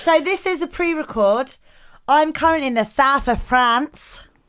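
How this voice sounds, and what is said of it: Australian-sounding put-on accent. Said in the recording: “Which is not Australian, as your accent might have just suggested.”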